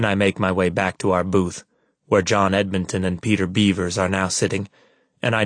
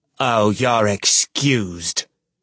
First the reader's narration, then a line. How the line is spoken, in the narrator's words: I sneer